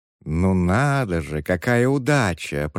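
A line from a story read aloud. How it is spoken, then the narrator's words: Cooing. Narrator (Russian): проворковала она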